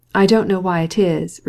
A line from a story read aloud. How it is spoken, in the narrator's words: replied Vronsky